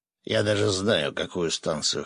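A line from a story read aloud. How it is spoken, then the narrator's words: Axe snorting. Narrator (Russian): хмыкнул топор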